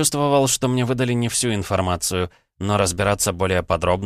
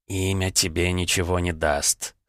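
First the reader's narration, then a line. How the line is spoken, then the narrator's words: Smirking snort. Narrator (Russian): хмыкнул Ковчег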